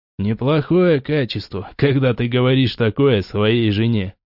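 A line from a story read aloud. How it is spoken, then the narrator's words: Short laugh. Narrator (Russian): хохотнул Кавс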